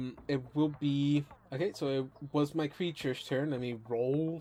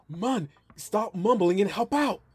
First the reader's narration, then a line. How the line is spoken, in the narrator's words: You hear her voice yell out